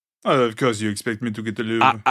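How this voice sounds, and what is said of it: Pretty good put-on French accent. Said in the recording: “That was a pretty good French accent, actually.”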